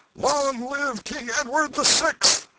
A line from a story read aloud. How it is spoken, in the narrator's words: another cry shook the night with its far-reaching thunders